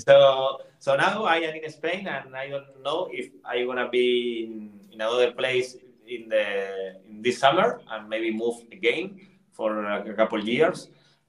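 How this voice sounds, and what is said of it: Non-native English accent. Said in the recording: “you can feel it with my accent. You can feel that I didn't do English shows for a long time.”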